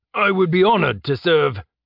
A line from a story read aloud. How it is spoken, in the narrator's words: the governor shouted valiantly